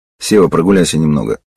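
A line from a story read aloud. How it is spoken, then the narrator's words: Quietly. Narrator (Russian): сказал я негромко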